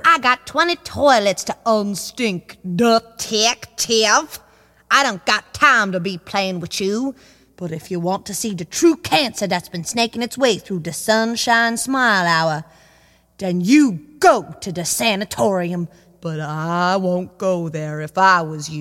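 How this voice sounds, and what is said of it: Inconsistent put-on accent. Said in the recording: “Your accent is a bit inconsistent.”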